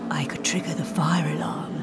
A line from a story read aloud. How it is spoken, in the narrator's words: she whispered